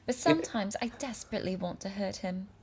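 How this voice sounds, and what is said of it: Put-on posh British accent. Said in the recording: “I am trying not to do a British accent. ... Okay, Downton Abbey, calm down.”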